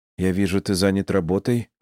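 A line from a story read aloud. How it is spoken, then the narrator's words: Calmer tone. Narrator (Russian): сказала она более спокойным тоном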